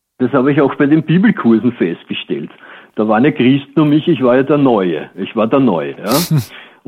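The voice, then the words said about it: Viennese Austrian German accent. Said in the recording (German): “du klingst ... Du bist Österreicher, oder? ... du klingst wie aus Wien”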